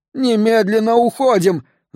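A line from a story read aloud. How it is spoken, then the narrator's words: Shouted. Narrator (Russian): закричал он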